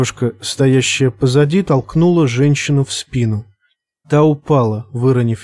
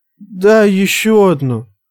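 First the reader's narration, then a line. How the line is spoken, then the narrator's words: Pleading. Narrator (Russian): взмолилась одна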